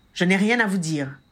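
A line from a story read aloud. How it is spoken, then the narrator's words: Hard retort. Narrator (French): répliqua l'homme d'une voix dure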